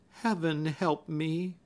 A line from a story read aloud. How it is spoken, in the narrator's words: she groaned mentally